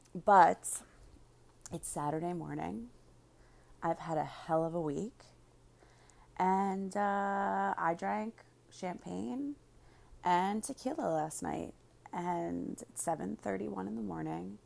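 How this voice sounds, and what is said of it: Slightly raspy, husky voice. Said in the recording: “My voice is a little bit sexy and raspy.”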